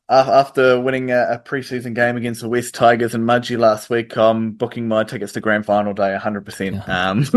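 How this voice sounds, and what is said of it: New Zealand accent. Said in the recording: “you have a New Zealand accent”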